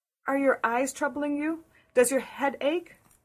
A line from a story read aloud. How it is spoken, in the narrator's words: queried Anne anxiously